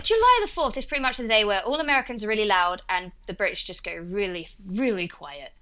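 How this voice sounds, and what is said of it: Essex English accent, dropped H's. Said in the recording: “that's what Essex is. And that's what my accent is, like Russell Brand ... we leave out H's with my accent”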